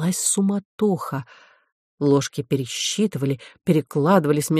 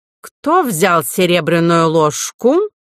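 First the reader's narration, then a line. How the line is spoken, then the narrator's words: Menacing question. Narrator (Russian): князь Вольфганг грозно спросил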